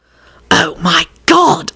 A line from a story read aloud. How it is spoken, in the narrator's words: Elizabeth hissed at Rosie